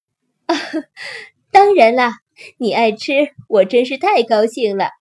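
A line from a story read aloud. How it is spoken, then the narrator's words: Laughing. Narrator (Chinese): 辛迪妈妈笑着说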